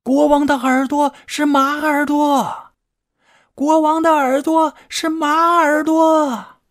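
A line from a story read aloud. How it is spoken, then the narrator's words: Loud shouting. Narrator (Chinese): 对着竹子大声喊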